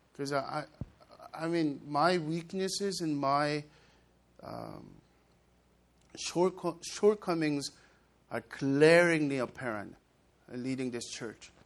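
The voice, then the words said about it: Non-native accented English. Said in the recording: “As a 1.5 generation, I get conscious about my accent and its pronunciation sometimes goes wrong.”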